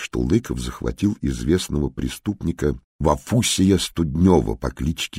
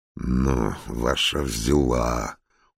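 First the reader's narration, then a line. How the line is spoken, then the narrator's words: Sullen grumble, prisoner. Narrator (Russian): угрюмо пробурчал арестованный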